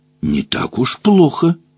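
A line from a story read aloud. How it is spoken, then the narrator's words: Whispering from below. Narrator (Russian): прошептал он снизу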